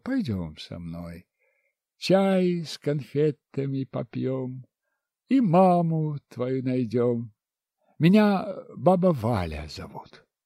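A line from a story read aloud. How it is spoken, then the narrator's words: Gentle woman's voice. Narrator (Russian): Женщина ласково сказала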